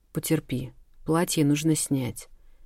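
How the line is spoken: Soothing whisper. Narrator (Russian): успокаивающим шепотом попросил Ахлф

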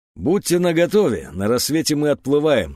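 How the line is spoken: Plain. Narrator (Russian): сказал

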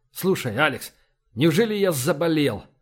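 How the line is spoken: Terrified strained words. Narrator (Russian): В ужасе выдавил из себя Эссекс

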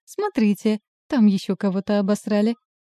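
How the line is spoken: Gleeful pronouncement. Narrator (Russian): радостно изрекает он

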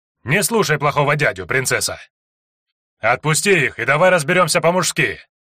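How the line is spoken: Loud bark. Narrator (Russian): гаркнул Лекс

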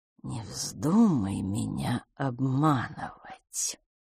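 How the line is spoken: Soft, quiet, menacing. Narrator (Russian): Мягким, негромким голосом, но так, что мисс Петтигрю вздрогнула, он сказал

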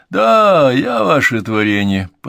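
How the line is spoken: Teasing. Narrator (Russian): подтрунил он

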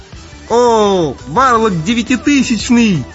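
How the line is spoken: Mage's joyful yell. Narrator (Russian): Радостно вопит маг

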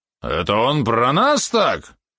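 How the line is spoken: Drunken roar. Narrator (Russian): взревел пьяный Георгий

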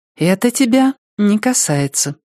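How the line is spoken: Calm. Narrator (Russian): спокойно сказала она

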